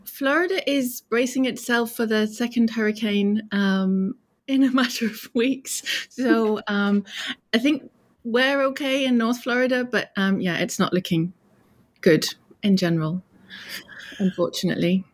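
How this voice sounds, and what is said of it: British accent. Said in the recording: “your accent, I'm just making a guess. You don't hail from Florida, do you? ... No, I'm British. ... I don't think I'll ever sound like a Floridian.”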